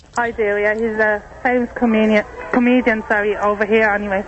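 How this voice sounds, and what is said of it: Irish accent. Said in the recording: “That's definitely an Irish accent.”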